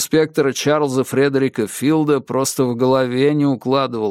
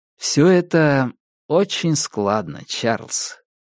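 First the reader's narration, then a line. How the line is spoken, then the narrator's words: Soft. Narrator (Russian): мягко промолвил я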